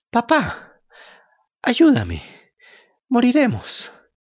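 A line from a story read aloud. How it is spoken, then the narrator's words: Breathless, broken voice. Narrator (Spanish): le dijo con la voz entrecortada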